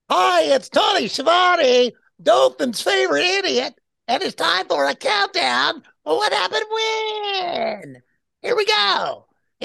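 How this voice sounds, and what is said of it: Silly comic voice. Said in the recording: “a funny or silly voice”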